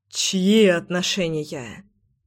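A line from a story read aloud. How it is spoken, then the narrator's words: Loud exhale. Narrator (Russian): шумно выдохнул Заверин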